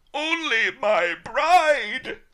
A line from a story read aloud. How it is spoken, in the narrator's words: I howled